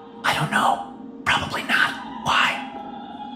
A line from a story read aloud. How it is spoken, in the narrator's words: The stagehand whispered